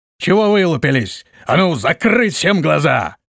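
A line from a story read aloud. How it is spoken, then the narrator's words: Bark. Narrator (Russian): рявкнул он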